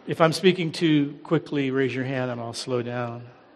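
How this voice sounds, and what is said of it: American English accent. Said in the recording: “I hope you can understand my accent... I know you're not used to this American accent.”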